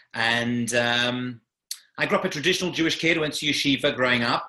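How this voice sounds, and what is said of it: London English accent. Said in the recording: “I grew up in London, England, as you can tell from the accent. It isn't New Jersey.”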